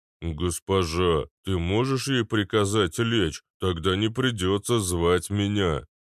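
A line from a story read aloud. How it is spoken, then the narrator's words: Low booming rumble. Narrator (Russian): прогудел Арнольд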